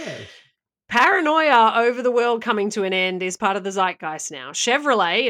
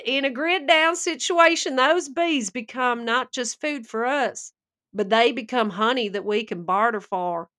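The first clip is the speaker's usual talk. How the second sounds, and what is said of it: Put-on accent, badly done. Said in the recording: “That was bad. That was a lot there. That was the, they were hard words in that accent.”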